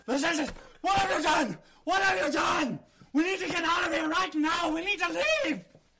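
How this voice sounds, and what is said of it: Panicked yelling. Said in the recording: “What he's yelling at you”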